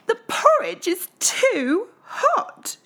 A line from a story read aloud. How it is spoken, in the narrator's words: exclaimed